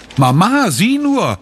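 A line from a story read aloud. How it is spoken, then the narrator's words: Called out. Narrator (German): ruft sie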